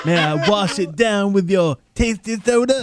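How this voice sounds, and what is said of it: Imitates another person's voice. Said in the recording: “mimicking Pulp Fiction in my voice”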